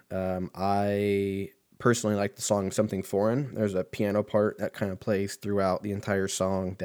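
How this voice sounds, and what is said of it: Strained voice, losing his voice. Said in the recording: “I'm losing my voice”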